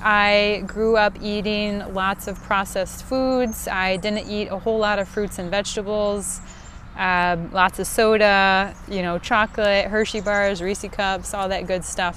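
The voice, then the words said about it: Midwestern American accent, northern vowel shift. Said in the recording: “born and raised in the good old Midwest, as if you couldn't tell from this great northern vol shift ... it's a great voice and it's a great accent”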